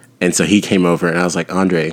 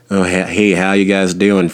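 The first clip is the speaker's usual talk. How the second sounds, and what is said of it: Put-on classic Southern US accent. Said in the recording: “he's really Southern. And so he has more of the classic, like ... from the South, you know, that accent.”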